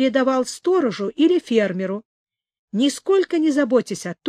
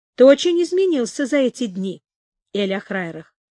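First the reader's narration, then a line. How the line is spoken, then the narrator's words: Plain. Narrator (Russian): сказал принц Радуга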